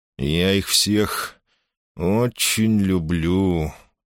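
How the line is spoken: Through barely parted lips. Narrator (Russian): процедил он, почти не разжимая губ

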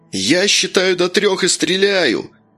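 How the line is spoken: Menacing shout. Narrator (Russian): грозно крикнул Кошкин

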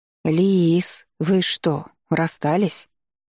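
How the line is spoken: Incredulous drawl. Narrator (Russian): Недоверчиво протянула Таня

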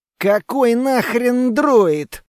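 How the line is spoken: Hissed through clenched teeth. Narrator (Russian): прошипел я сквозь плотно стиснутые зубы

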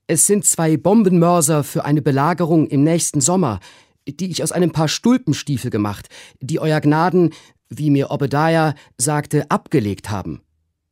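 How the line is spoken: Called out. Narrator (German): rief Trim

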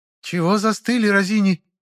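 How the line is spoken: Sharp rousing shout. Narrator (Russian): прикрикнула Элисия, взбадривая всех прислужников

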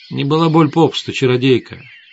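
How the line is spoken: Calm interrupting witch. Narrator (Russian): спокойно оборвала Свету ведьма

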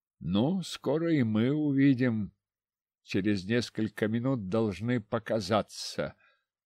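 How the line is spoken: Muttered. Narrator (Russian): пробормотал

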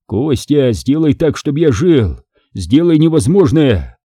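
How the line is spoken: Pleading wails. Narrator (Russian): Просили, вопили

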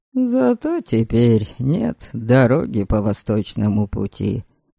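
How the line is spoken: Young man muttering. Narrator (Russian): пробурчал парень

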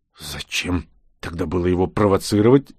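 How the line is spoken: Angry, through gritted teeth. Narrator (Russian): зло процедил я

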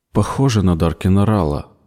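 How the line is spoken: Muttering. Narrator (Russian): пробормотала Кара

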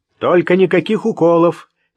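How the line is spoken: Shouted. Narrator (Russian): крикнул

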